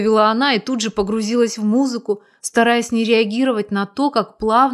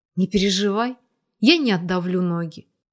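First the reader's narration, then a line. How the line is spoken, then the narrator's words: Completely calm man. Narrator (Russian): Мужчина совершенно спокойно произнес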